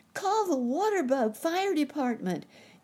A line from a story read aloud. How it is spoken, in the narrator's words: yelled Sammy